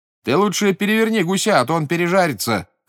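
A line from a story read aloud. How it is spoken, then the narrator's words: Shouting from another room. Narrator (Russian): крикнул ему из спальни Амет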